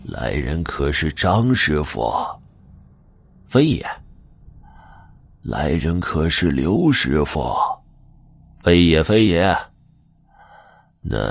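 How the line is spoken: Hoarse reply. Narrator (Chinese): 里面一个沙哑的声音回道

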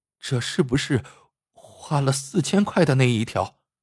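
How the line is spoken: Trembling, dismayed question. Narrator (Chinese): 小谷的心沉了下去，颤声问老王

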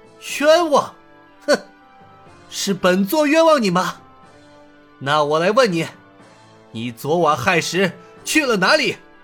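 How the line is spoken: Sneering. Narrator (Chinese): 尹建平冷笑道

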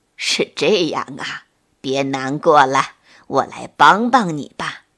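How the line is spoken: Old creature, smiling. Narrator (Chinese): 老河蚌听了，笑了笑说

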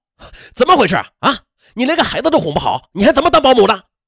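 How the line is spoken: Furious. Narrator (Chinese): 他一时的怒火攻心

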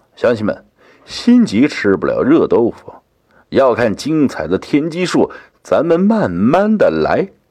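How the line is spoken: Smiling, cheerful. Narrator (Chinese): 天机子道长依旧笑着说道

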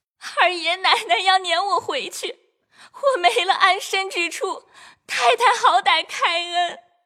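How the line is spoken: Tearful pleading. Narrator (Chinese): 秋桐便哭告邢夫人说

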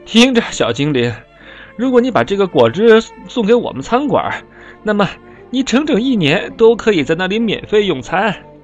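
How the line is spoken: Breathless. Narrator (Chinese): 当他终于喘上来气的时候，他说

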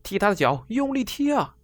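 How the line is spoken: Crowd shouting. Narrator (Chinese): 很多人也在喊

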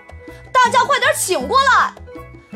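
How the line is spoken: Shouting. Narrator (Chinese): Kevin 喊道

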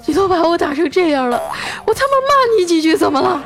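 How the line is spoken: Boy, tearful voice. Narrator (Chinese): 那男孩啊带着哭腔说

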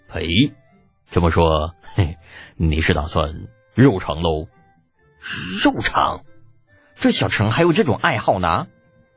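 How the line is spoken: Sly chuckle. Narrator (Chinese): 程楚墨嘿嘿一笑

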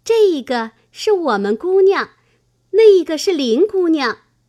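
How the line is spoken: Laughing. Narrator (Chinese): 香菱 笑道

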